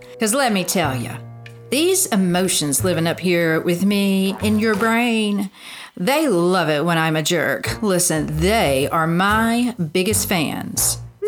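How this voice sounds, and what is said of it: Character voice with Southern accent. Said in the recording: “it was that Southern accent that threw me off.”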